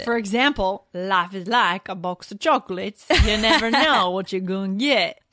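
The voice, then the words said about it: Forrest Gump impression. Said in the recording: “Sometimes you even adopt the voice of the character”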